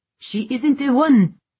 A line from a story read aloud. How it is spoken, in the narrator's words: a female voice bellowed over the tempest's howl